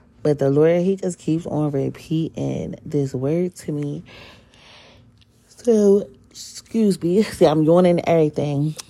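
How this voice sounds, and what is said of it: Husky, sleepy voice. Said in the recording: “I sound a little husky, it's because I just woke up”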